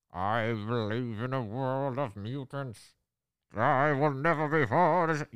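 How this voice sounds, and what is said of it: Villain voice, cadence ending upbeat. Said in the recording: “I'm going to do my Apocalypse accent with my hand over my face ... The cadence always ends on an upbeat.”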